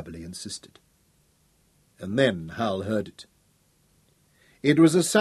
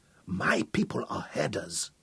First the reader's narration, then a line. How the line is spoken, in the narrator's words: Abberley whispered